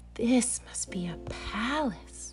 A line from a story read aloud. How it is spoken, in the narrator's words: Corduroy gasped